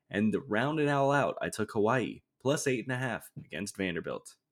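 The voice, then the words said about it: Announcer-style radio voice. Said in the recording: “I like your radio voice there at the end.”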